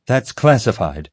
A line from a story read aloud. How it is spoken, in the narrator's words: Molly replied sharply